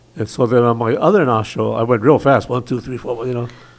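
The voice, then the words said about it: Stuffy, congested voice from a cold. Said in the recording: “I have a cold. ... I'm still kind of stuffy”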